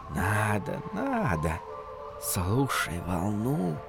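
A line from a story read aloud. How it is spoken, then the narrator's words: Whispering dunes. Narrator (Russian): шепнули в ответ дюны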